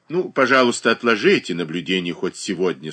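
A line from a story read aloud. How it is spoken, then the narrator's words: Dry remark. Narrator (Russian): сухо заметила мать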